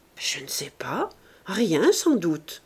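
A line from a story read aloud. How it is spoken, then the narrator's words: Plain. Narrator (French): répondit Sandoz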